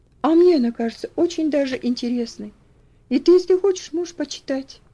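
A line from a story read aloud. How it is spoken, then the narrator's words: Soft, gentle suggestion. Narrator (Russian): мягко предложила она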